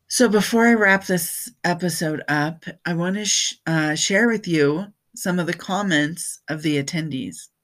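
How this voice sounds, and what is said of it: Tired, scratchy voice. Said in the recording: “losing my voice because after 3 days of speaking for 8 hours a day, my voice is a little tired. ... the scratchiness that's coming in.”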